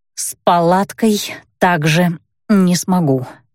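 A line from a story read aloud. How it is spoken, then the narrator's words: Hoarse, strained. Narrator (Russian): прохрипела я, с трудом поднимаясь на ноги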